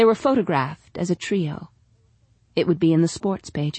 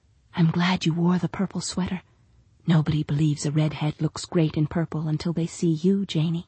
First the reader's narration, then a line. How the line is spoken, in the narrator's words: Her mother whispered